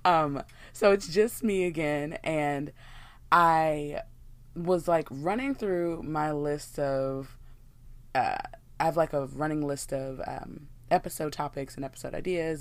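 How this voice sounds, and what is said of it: Scratchy, hoarse voice. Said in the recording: “my voice is a little bit scratchy”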